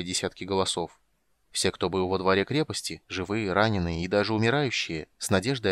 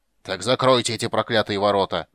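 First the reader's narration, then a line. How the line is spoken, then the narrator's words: Furious roar. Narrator (Russian): в ярости проревел Дункан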